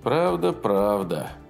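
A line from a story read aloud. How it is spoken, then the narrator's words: Gloomy. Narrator (Russian): мрачно сказал Клинкскиус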